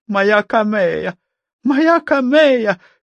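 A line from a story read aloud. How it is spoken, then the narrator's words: Frantic breathless shout. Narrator (Russian): первое, что закричала свекровь, вынырнув из воды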